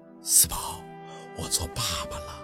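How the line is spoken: Soft-spoken. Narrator (Chinese): 陆佩 轻声的说道

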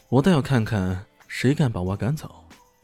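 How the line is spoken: Calm, cool. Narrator (Chinese): 他 淡淡的说道

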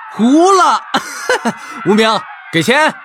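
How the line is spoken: Excited shout. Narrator (Chinese): 有些兴奋的…大喊道

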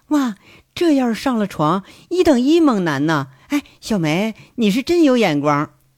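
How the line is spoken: Admiring. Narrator (Chinese): 监控室里头那位赞叹开了

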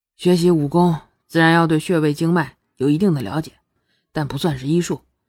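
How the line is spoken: Calm, flat. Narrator (Chinese): 沈泥烟才淡淡的说道

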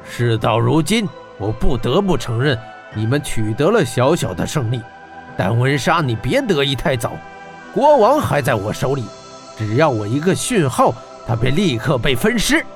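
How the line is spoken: Low, deep voice. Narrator (Chinese): 他沉声道

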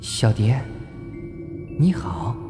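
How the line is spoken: Soft, gentle woman. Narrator (Chinese): 年轻美丽的妈妈对他柔声说道

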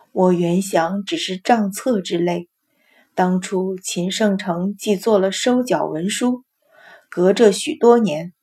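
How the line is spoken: Sighing. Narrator (Chinese): 老夫人叹道

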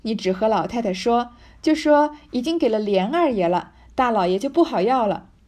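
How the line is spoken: Laughing. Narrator (Chinese): 平儿笑道

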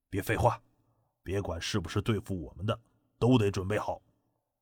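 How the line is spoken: Hushed voice. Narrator (Chinese): 藤青虎压低声音说

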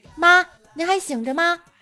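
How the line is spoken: Calling upstairs. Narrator (Chinese): 对着楼上喊了一句

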